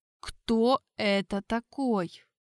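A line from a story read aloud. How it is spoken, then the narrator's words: Barely audible whisper. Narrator (Russian): Чуть слышно прошептал я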